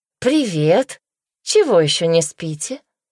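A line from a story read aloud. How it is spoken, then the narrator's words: Cheerful question. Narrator (Russian): бодро спросила она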